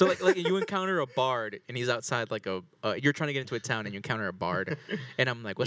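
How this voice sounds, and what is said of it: Usual voice. Nothing is said of it.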